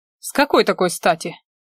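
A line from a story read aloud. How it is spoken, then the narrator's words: Dismissive snort. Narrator (Russian): хмыкнул я пренебрежительно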